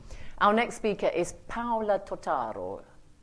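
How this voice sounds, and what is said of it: Put-on Italian accent. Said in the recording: “You like my Italian accent? Don't speak a word of Italian”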